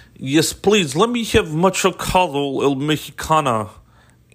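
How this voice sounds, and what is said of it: Put-on Russian accent. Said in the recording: “how I would have to order tacos in a Russian accent now”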